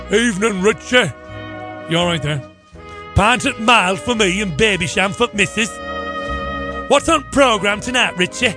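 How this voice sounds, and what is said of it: Put-on pub regular accent. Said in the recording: “All my accents sound the same”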